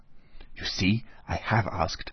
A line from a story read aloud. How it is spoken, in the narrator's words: whispered Natasha to her little brother and to Pierre